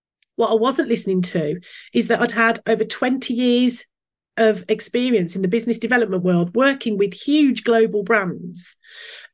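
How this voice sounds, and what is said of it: Brummie accent. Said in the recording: “my Brummie accent”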